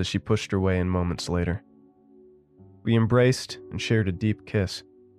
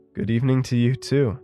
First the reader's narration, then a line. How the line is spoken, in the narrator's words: chuckled